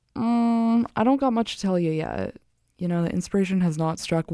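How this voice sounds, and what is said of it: Vocal fry, dry voice. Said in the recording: “I can hear, like, the sweet sounds of my vocal fry and how I need to drink water”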